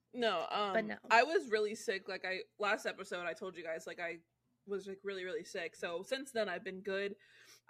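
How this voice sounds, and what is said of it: Slightly stuffy, congested nasal voice. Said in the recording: “I just have like in my sinuses, just like a stuffiness that won't go away ... you can kind of hear it in my voice a little bit ... my nose is just constantly stuffy”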